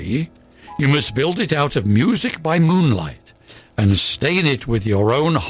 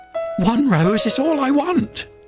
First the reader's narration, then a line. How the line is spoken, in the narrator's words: cried the nightingale